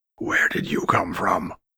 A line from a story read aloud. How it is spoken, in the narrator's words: rasped out